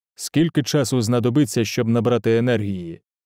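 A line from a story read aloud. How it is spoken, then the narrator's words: Plain question. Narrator (Ukrainian): запитав Штурм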